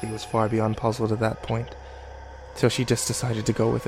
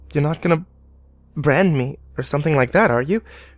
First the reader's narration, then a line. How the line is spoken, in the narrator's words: Her voice shook